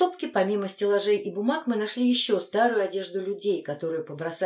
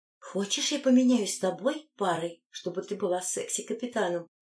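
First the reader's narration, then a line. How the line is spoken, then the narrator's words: Whispered question. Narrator (Russian): шепотом спросила Анна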